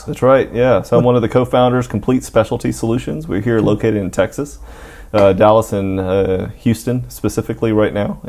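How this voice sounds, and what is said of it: Deep Southern US accent. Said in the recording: “such a deep southern accent”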